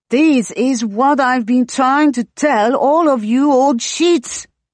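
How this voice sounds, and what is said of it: Light foreign accent, lengthened vowel. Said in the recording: “his accent lengthening the last word into sheets, though otherwise his English is only lightly inflected with another tongue.”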